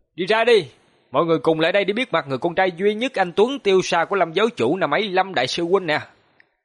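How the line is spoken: Smirking, then loud shout. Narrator (Vietnamese): Hoàng Long nhếch miệng nói, hắn hét lớn

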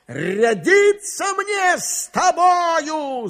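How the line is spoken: Shouting. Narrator (Russian): закричал он

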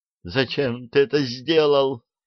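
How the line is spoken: Sobbing. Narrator (Russian): всхлипнула

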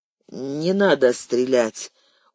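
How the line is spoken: Tired curt remark. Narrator (Russian): устало бросил Соломатин

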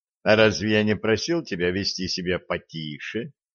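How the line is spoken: Calm question. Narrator (Russian): спокойно спросил Олег

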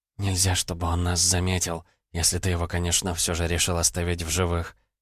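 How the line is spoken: Barely audible whisper. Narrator (Russian): на грани слышимости прошептала Ванда

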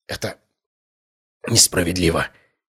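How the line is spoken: Whispered. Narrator (Russian): прошептал он

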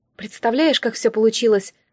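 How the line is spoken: Sighed. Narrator (Russian): вздохнула

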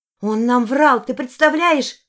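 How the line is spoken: Exclamation. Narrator (Russian): воскликнула я

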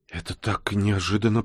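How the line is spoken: Babbling. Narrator (Russian): пролепетала

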